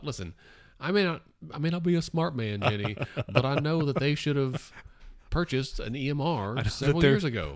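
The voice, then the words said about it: Poor Forrest Gump impression. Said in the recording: “worst Forrest Gump impression... It wasn't awesome.”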